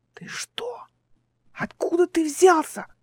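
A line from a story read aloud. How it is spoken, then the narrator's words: Hissed. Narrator (Russian): прошипела Эл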